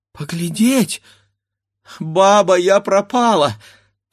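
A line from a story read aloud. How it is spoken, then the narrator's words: Sudden cry. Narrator (Russian): вскрикнула Катерина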